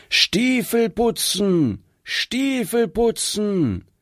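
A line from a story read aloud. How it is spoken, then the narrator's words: Called loudly. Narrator (German): laut rufen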